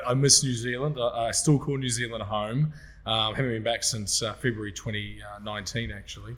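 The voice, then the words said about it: New Zealand accent. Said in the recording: “it's not an Australian accent. ... No, I'm a Kiwi. I'm a Kiwi.”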